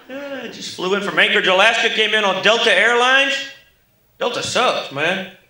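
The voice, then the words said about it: Oklahoma rural American accent. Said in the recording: “I'm from Tulsa, Oklahoma, hence the Mr. Haney accent here. People always say, you sound like a guy from Green Acres.”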